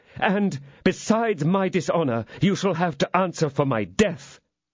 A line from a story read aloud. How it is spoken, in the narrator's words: I cried